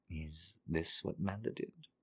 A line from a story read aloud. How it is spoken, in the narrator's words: purred